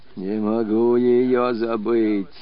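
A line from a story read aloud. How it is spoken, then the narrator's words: Weak voice. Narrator (Russian): повторял воевода слабым голосом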